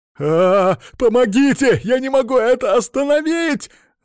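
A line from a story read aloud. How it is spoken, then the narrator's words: Panicked screaming. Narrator (Russian): заорал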